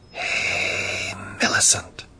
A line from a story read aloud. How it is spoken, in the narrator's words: someone whispered very softly